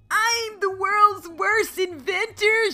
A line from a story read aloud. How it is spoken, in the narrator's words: wailed